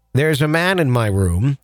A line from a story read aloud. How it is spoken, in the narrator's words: calmly announced